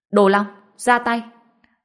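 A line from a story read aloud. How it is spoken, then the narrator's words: Loud shout. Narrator (Vietnamese): La Thuần hét lớn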